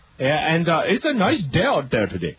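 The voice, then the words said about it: Put-on Indian accent. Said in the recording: “your Indian accent is marginally better than mine”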